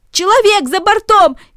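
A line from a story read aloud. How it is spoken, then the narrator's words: Shouting. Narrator (Russian): кричали одни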